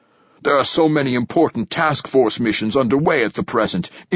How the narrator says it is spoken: says Lourdesami, his voice urgent

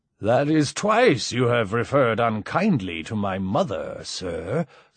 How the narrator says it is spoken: slurred Mike

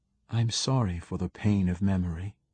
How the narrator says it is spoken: she said softly

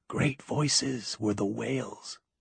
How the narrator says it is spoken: she whispered

